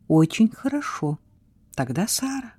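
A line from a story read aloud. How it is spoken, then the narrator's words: Quiet, honored, smiling. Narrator (Russian): тихо сказал он, принимая это как честь, улыбнувшись ей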